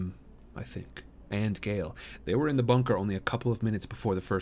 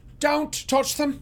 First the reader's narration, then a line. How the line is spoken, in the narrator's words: yell